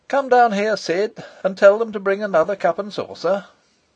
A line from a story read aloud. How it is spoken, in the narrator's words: Horace answered, and then, calling out loudly